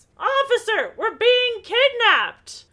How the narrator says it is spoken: Beth immediately yells

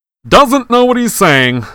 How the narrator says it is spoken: said Lockhart loudly to the anxious crowd of Gryffindors

